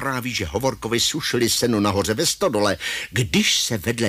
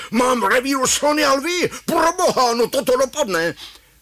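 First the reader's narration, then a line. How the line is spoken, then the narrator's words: Shouting. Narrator (Czech): pan Hajný Gačírek křičí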